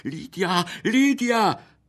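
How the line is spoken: Voiceless attempted shout. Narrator (Italian): fu per gridare, ma non aveva più voce

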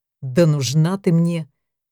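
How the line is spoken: Contemptuous snort, hulking man. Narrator (Russian): презрительно фыркнул громила-германец

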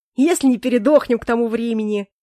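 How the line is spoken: Exaggeratedly cheerful. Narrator (Russian): преувеличенно радостно произнес Грей

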